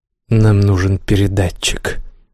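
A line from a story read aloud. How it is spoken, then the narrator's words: Quiet. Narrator (Russian): тихо молвил Тиран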